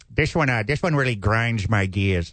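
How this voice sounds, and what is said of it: Weird impersonation of someone. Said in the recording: “Weird impersonation.”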